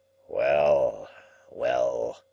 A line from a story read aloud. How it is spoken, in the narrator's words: he grumbled